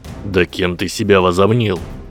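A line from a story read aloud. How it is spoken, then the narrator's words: Angry question. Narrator (Russian): уже сердито спросил красавчик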